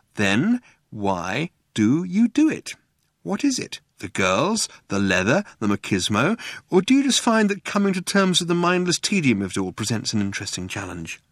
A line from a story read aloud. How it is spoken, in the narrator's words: he said slowly, giving the words time to reach their mark